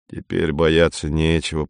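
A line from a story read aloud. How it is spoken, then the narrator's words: Grumbling. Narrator (Russian): проворчал Навага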